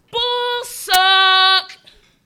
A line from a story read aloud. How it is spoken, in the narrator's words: this statement was shouted